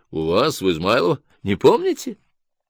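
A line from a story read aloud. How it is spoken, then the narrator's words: Charming, slightly mysterious laugh. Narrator (Russian): Она засмеялась просто очаровательно и даже немножко таинственно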